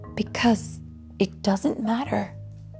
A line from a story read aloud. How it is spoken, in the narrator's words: sighed